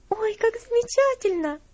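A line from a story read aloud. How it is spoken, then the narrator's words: Joyful exclamation. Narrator (Russian): восклицала Элси, радостно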